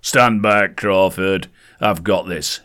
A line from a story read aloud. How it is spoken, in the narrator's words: boomed